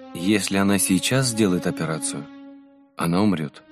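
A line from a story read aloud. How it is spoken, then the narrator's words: Sad. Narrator (Russian): грустно сказал батюшка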